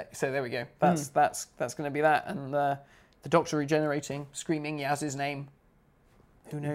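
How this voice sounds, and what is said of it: Usual voice. Nothing is said of it.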